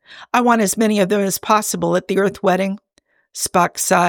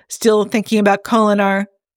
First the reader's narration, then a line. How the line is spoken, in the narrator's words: Jim chuckled